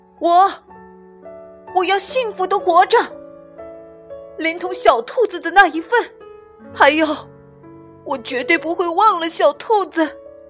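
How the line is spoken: Tearful little pig shouting. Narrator (Chinese): 小猪擦掉眼泪，朝着夜空喊了起来

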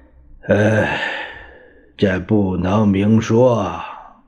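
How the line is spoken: Hesitant, heavy sigh. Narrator (Chinese): 蒋介石沉吟了一阵儿，他长叹一声

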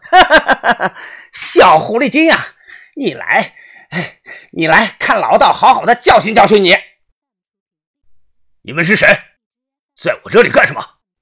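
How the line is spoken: Middle-aged man's voice. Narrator (Chinese): 传来了一道声音 四十多岁的矮个子中年人

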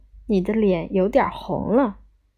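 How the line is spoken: Laughing. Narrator (Chinese): 边笑着说

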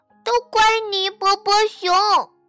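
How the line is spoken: Sad crying. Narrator (Chinese): 他伤心地哭了起来

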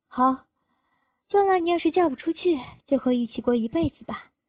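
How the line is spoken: Light smile. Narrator (Chinese): 他听完也只是笑笑

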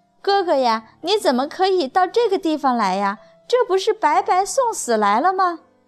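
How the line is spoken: Lamenting, reproachful. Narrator (Chinese): 弟弟赵礼先是一阵惊喜，随后马上就哀叹起来，埋怨哥哥说

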